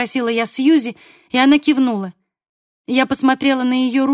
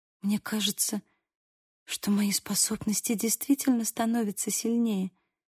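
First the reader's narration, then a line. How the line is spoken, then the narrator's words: Whisper. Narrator (Russian): прошептала Сьюзи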